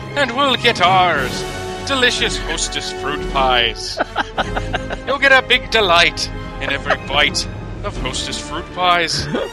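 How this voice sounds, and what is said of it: Put-on Irish accent. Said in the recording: “my terrible Irish accent ... No, that was very good, actually.”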